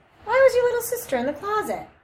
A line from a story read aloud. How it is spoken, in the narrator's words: exclaim